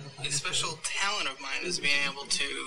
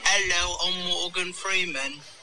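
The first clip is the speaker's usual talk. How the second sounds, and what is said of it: Imitates another person's voice, British accent. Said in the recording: “do a Morgan Freeman impression, but in British ... It doesn't sound anything like him.”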